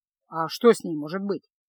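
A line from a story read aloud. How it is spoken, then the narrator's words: Snorting. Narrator (Russian): фыркнул Кайл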